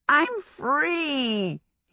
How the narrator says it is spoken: he shouted

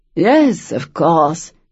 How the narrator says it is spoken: the Duke purred

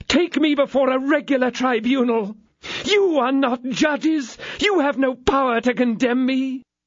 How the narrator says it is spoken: howled out her ladyship

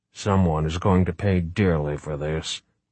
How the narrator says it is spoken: Wright muttered to himself

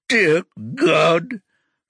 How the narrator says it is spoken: Rocky sobs

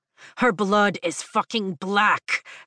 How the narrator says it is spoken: Zayden snaps

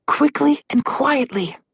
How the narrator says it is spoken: Alex whispered to the group

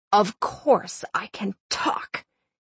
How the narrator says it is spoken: he croaked

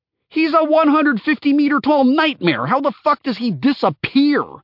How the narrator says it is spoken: Kahurangi yelled

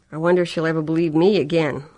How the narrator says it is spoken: Lori asked bitterly

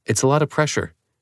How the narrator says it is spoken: she said

